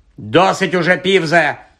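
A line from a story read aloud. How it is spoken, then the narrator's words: Barked, professor. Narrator (Ukrainian): гаркнула професорка МакГонагал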